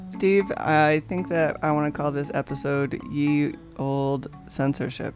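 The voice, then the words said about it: Voice sounds a little off. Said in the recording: “My voice is a little weird. I was sick last week.”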